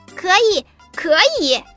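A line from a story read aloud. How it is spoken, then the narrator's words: Loud, after a pause. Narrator (Chinese): 小羊想了想，大声说道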